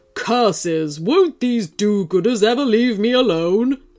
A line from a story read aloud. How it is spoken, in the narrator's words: bellowed the wolf